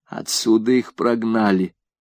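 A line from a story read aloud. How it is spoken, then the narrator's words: Old woman mumbling. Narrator (Russian): пробормотала старушка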